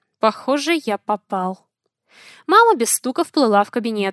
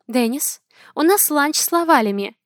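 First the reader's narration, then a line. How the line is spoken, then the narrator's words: Gentle reminder. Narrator (Russian): напомнила мягко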